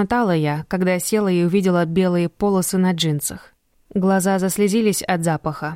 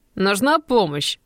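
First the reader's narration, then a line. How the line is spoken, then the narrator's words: Voice trembling with laughter. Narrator (Russian): Голос Криса дрожал от смеха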